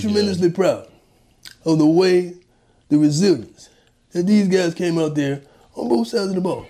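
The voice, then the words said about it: Impression of Coach Prime. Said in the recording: “that's the greatest impersonation really of Coach Prime I've ever heard”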